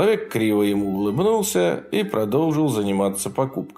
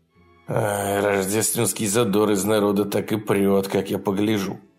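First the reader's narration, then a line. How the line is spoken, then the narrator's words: Muttering under breath. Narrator (Russian): пробормотал Джефф себе под нос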